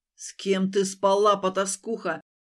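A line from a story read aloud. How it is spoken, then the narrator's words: Thunderous booming voice. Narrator (Russian): прогремел громом его голос, и лес будто содрогнулся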